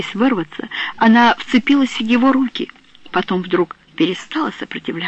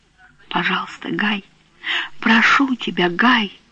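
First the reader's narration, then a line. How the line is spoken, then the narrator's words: Whisper. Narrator (Russian): прошептала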